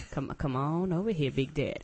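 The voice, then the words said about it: Sultry come-hither seductive voice. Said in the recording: “the sexy voice I have ... "Come Hither" voice ... Trying to mac.”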